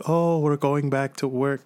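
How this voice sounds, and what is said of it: Poor attempt at Chinese accent. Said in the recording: “That's not even a Chinese accent. ... that was a half-assed attempt”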